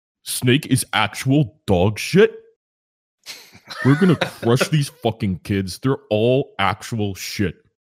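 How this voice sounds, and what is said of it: Imitates another person's voice. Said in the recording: “my Dragoon impression ... Pretty close”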